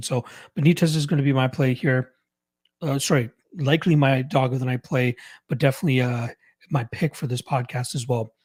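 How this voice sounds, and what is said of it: Strained, fading, worn-out voice. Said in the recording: “I can feel my voice just escaping me, and I apologize for anybody that this sounds like complete shit to ... let my voice breathe”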